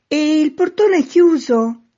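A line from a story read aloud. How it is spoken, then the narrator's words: Shouted question. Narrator (Italian): chiese di nuovo il signore affacciato sempre gridando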